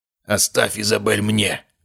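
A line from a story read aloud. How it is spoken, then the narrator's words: Hoarse rasp. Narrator (Russian): прохрипел он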